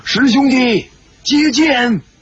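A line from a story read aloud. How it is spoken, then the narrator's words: Shouting. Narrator (Chinese): 展香主大叫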